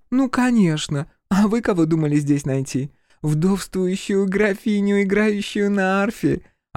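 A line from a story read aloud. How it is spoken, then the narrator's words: Creaky laugh. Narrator (Russian): Она скрипуче рассмеялась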